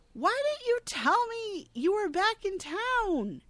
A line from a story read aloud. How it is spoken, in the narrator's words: gets shouty again, accusing Charlie